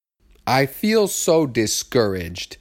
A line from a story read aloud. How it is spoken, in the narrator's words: said Kim